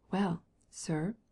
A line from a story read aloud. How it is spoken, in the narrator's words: whispered the Swiss